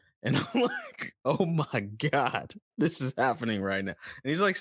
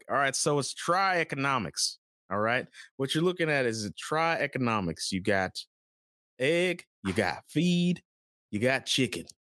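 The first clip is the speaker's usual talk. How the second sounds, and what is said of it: Put-on Kentucky accent. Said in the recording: “he's got a very Kentucky accent.”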